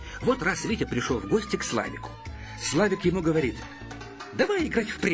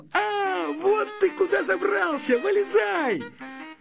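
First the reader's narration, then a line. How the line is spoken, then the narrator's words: Shouting. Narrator (Russian): Славик закричал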